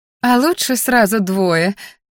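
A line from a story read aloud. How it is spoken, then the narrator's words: Happy laughing mother. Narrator (Russian): засмеялась моя счастливая до невозможности матушка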